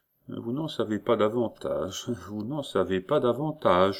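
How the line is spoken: Judge murmuring. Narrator (French): murmurait le juge

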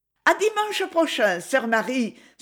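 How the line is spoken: Children exclaiming together. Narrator (French): s'écrièrent les enfants

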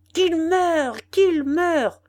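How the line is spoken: Furious shout. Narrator (French): cria Hackett d'une voix furieuse

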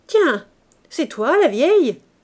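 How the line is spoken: Shout choked with sneering laughter. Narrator (French): cria le zingueur qu'un ricanement étranglait

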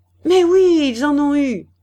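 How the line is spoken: Angry exclamation. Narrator (French): s'écria-t-elle en colère

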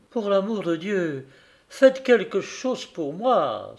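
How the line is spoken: Exclamation. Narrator (French): s'écria-t-elle

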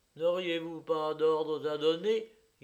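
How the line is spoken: Timid question. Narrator (French): la question timidement posée par Alexei Yegorovitch

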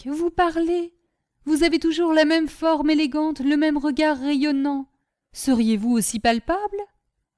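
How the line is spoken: Exclamation. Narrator (French): s'écria Vatek

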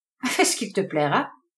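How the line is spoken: Laughing. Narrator (French): répondit Todd Marvel en riant

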